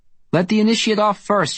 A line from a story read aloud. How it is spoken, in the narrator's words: she shouts